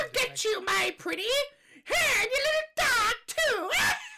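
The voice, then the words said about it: Good Wicked Witch character voice. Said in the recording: “That was annoyingly good. ... It's really good, isn't it? I'm really proud of that impression.”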